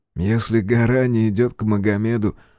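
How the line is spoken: Reply then laughter. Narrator (Russian): ответил тот и рассмеялся собственной шутке

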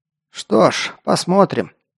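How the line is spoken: Skeptical snort. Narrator (Russian): хмыкнул наставник

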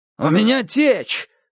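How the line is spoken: Yelling. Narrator (Russian): заорал он

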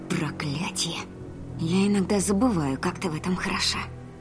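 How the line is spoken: Whisper. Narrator (Russian): Прошептала Ри

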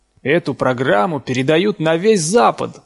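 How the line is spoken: Excited shout. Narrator (Russian): взволнованно прокричал Дин

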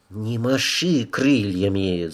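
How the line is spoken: Hissing. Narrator (Russian): зашипела на нее Тасана

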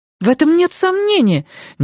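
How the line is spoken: Impatient, slightly angry exclamation. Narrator (Russian): нетерпеливо и чуть сердито воскликнула Надин

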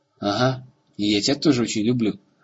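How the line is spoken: Laughing. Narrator (Russian): засмеялся Рагон

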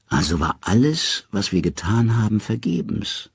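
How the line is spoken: Weary. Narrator (German): sagt Odin müde

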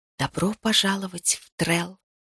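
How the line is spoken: Whispered. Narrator (Russian): прошептала

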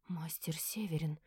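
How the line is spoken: Nervous whisper. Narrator (Russian): прошептала в волнении

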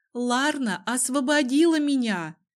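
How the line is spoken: Shout. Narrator (Russian): крикнула Ума

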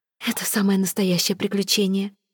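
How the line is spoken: Breathless after kissing. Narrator (Russian): выдохнула Эвейн, когда они прекратили целоваться

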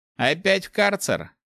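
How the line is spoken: Snorting. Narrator (Russian): хмыкнул воришка

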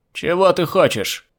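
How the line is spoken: Shouted. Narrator (Russian): крикнул черноперый

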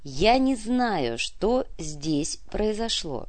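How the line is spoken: Slow. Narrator (Russian): медленно произнес Константин

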